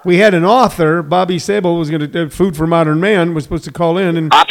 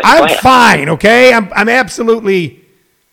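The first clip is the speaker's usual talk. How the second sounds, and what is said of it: Raised, agitated voice. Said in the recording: “You're raising your voice.”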